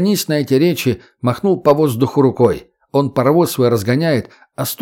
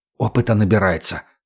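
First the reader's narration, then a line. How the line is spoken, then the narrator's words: Whispered. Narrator (Russian): шепнул Егор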